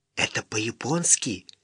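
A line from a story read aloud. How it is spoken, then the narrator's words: Whispered. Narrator (Russian): прошептал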